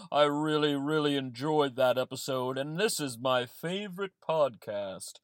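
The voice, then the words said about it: Santa Claus character voice. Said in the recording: “Santa here ... Please excuse my voice”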